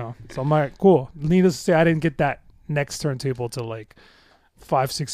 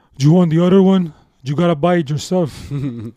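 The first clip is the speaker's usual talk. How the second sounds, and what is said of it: Colombian accent. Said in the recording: “in his Colombian accent”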